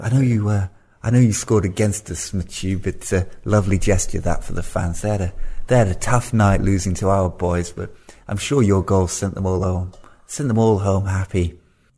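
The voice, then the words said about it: Imitates another person's voice. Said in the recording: “Strange accent he's got there, Eddie Howe”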